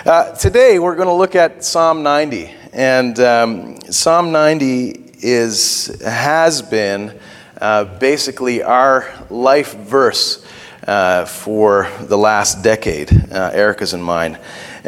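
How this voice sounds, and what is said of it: Worn-out, strained voice. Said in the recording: “My throat is. My voice is finished ... my voice is a little finished”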